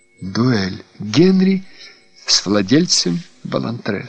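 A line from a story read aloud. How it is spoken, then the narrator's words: Plain. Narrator (Russian): сказал я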